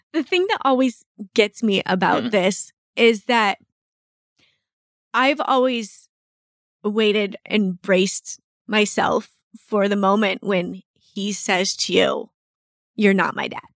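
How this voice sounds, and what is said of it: Emotional, choked-up voice. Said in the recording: “Why am I all emotional?”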